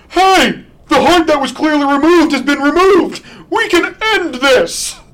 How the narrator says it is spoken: shouts from the heavens like a fucking idiot

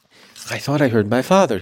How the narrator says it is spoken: gasped

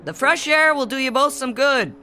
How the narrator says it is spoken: Dad shouted cheerfully

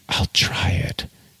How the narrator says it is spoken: she whispered

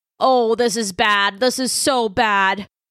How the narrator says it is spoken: moaned Specs

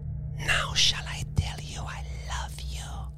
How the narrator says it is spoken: she whispered

